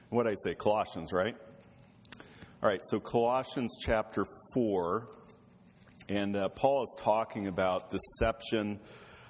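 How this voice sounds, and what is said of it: Unusually deep, low voice. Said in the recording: “by the end of the week, I can sing the bass parts really good. And that's where my voice is today.”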